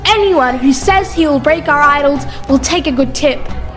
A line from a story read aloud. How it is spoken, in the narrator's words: Nimrud, who was angry, shouted